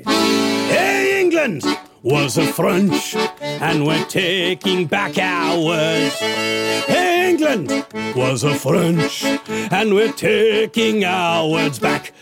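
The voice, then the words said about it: Exaggerated bad French accent. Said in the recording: “an appalling French accent”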